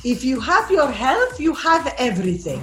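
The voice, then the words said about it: Imitates another person's accent. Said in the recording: “I'll use my mom's accent because it's better.”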